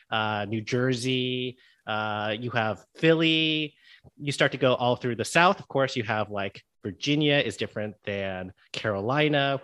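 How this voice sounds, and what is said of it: Neutral American newscaster accent. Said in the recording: “the very neutral American accent is the one that I speak with ... that's kind of the newscaster voice”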